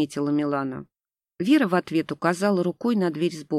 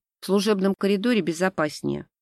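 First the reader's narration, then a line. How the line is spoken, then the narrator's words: Irritated curt remark. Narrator (Russian): раздраженно бросила Вера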